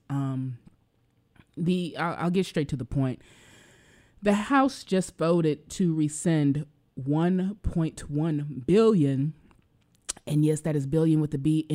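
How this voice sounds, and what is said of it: Slightly emotional voice. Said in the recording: “if you can tell my voice, has me a little bit emotional”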